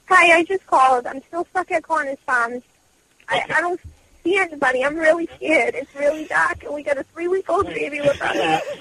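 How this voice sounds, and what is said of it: Boston accent. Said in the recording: “she has a Boston accent”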